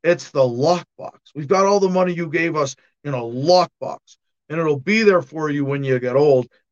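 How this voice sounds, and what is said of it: Imitates another person's voice. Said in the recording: “bad Al Gore impersonation ... very bad impersonation”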